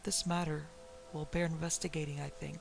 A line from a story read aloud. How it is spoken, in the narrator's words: he murmured softly to himself